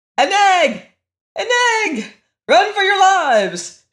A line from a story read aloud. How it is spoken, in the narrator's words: shouted the captain of the gnomes in a voice of horror